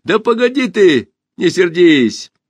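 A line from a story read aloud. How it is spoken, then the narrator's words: Laughing. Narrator (Russian): засмеялся Пашка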